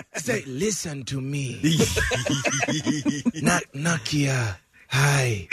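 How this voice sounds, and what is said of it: Imitation of T'Challa's voice. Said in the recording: “a rock solid T'Challa impersonation”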